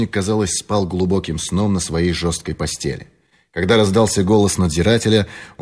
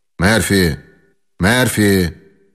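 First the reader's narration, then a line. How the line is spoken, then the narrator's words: Loud call. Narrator (Russian): громко позвал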